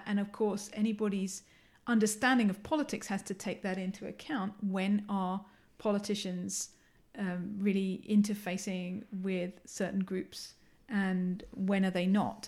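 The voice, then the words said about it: English accent. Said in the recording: “you can tell from my accent I'm English”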